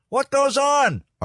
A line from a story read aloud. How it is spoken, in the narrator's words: Art yelled